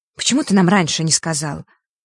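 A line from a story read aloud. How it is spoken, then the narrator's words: Skeptical hmph. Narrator (Russian): Фэш хмыкнул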